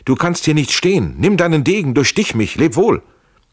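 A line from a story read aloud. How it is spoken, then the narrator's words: Called out. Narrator (German): rief Schell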